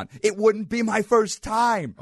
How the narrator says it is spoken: I shouting across Belmont

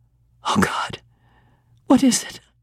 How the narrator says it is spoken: I gasped

